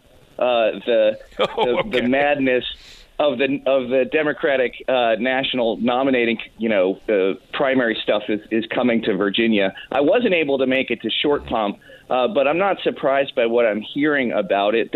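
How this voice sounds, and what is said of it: Stuffy, congested voice. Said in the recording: “I don't know if you can hear in my voice, John, but I'm either suffering from pollen or Beto mania.”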